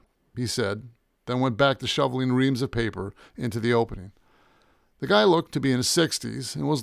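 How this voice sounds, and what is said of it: Usual voice. Nothing is said of it.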